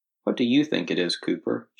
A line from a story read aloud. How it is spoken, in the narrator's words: she whispered